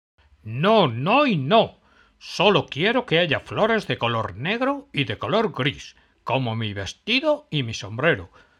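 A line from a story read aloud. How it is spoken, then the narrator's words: Shrieking. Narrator (Spanish): chilló Burlona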